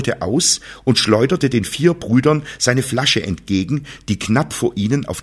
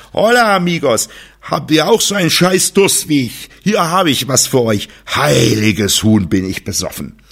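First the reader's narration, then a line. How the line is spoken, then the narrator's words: Drunken heavy slurring. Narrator (German): lallte er mit schwerer Stimme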